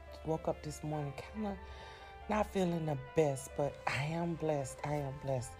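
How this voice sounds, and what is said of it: Weak, strained voice. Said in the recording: “My voice is kind of out today.”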